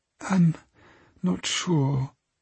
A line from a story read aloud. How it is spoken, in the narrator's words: she murmured